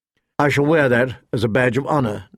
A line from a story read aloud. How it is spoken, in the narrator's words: Ned said dryly